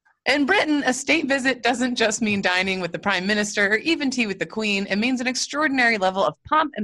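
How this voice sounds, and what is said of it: Usual voice. Nothing is said of it.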